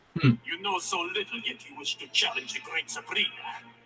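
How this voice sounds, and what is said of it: Very strange accent. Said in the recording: “a very strange accent”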